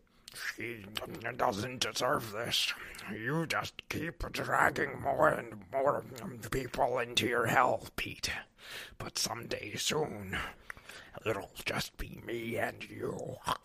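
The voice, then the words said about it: Gross villain character voice. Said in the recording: “read his dialogue here in your Vermin voice ... I feel nauseous. That's so gross. ... Great delivery there.”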